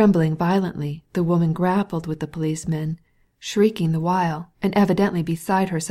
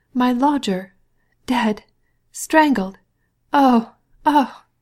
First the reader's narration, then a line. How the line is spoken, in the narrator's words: cried the woman, breathlessly raising her voice higher at each word